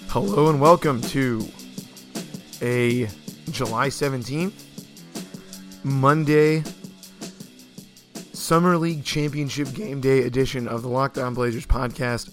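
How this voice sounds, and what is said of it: Hoarse, partly lost voice. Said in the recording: “my voice is a little gone from the weekend”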